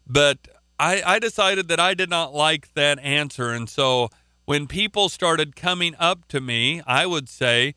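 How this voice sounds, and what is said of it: Oklahoma accent. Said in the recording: “I guess it's my Oklahoma accent”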